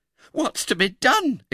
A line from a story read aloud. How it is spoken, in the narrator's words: exclaimed Mrs